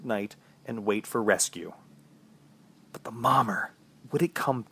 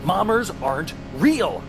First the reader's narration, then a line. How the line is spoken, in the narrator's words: I yelled out to no one